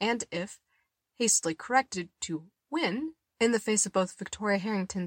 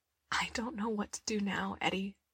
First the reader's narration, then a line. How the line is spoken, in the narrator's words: she whispered, her voice thick